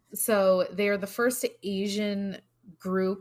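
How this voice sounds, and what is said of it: Usual voice. Nothing is said of it.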